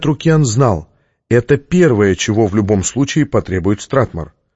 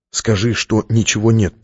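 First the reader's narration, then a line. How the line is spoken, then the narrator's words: Whisper. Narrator (Russian): прошептал он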